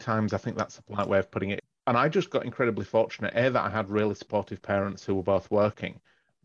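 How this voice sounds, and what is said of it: Northern English accent. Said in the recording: “I'm clearly not originally from Australia. You can probably pick that by the accent. ... I grew up in the north of England”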